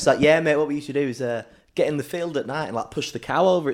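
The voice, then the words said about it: Put-on Yorkshire accent. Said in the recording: “He's a little Yorkshireman ... He talks a bit like that ... No, that's Manchester. Let me just get back to Yorkshire. Oh, yeah, there we go.”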